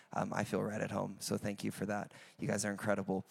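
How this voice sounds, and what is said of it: American accent. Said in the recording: “I'm from America, if you have not guessed on the accent.”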